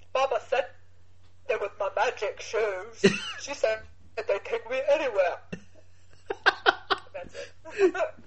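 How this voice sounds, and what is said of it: Forrest Gump impression. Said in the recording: “you do sound a bit like Forrest Gump ... I do a great Forrest Gump ... do a Forrest Gump impression”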